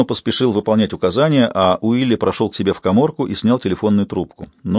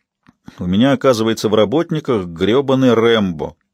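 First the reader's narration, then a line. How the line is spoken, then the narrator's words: Wry snort. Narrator (Russian): хмыкнул Брю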